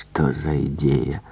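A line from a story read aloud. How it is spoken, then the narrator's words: Whispered. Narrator (Russian): прошептал Пуаро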